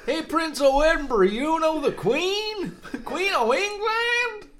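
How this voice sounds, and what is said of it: Absurd impression of an old man. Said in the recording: “crazy old, what would you call this kind of Canadian? ... my impression of Prince Charles ... It was an absurd impression.”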